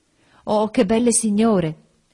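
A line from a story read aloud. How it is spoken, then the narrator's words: Exclaimed. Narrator (Italian): esclamò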